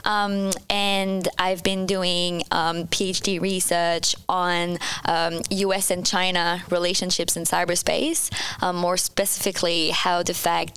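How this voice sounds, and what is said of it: French-Canadian accent. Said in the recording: “I'm French-Canadian, so you'll be able to hear my accent throughout this episode”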